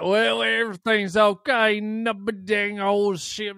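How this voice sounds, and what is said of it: Put-on strong Southern US accent. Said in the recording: “someone from Tennessee with a strong southern accent”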